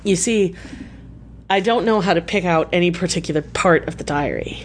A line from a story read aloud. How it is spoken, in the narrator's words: At length he stammered out